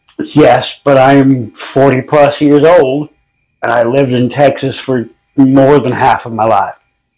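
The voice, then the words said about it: Texan Southern accent. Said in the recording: “a chicken what can tuck its head in ... You were not raised in Texas ... That accent's really coming out.”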